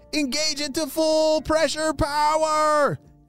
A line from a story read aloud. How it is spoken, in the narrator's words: shouted Oakley